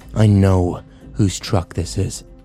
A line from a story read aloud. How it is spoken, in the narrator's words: Kyle growled